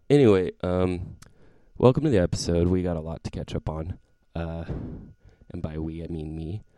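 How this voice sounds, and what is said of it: Sick-sounding voice. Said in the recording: “I am a little sick right now, so the quality of my voice is different. I sound sexier.”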